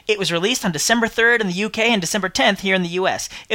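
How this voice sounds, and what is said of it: British accent. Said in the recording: “despite my accent, at home means the UK”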